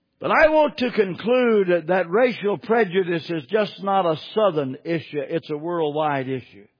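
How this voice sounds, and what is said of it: Southern American accent. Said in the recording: “I'm a Southerner. I talk Southern.”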